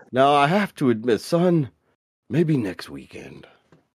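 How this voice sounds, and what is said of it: Fatherly character voice. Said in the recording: “you sound like my dad about to tell me he can't pick me up.”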